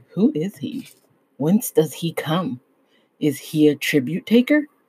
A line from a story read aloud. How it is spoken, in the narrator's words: men whisper to one another